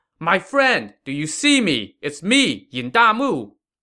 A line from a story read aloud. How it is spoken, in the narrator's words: Yin Damu shouted